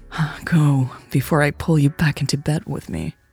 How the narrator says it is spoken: Louise panted

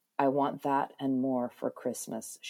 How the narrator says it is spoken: whispered

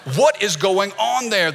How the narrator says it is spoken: the boss asked

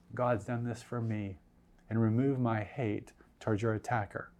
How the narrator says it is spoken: I said softly

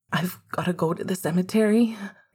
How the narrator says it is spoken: Sirius said, his voice still quivering

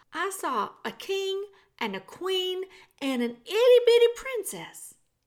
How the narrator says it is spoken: shouted Meg

